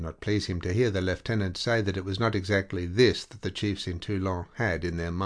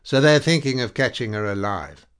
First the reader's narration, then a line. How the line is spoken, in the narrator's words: Peyrol the gunner asked impatiently